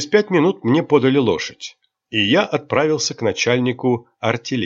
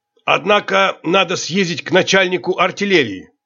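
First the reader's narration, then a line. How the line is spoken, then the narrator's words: Serious commanding tone. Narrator (Russian): сказал мне капитан серьезным начальническим тоном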